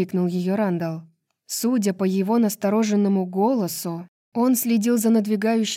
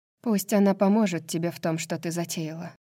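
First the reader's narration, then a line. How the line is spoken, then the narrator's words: Quiet. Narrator (Russian): тихо сказала Неста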